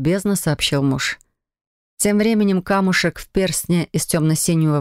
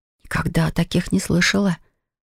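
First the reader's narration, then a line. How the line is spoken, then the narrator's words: Whisper. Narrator (Russian): прошептала я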